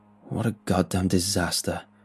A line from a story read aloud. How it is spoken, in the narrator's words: Mark said bitterly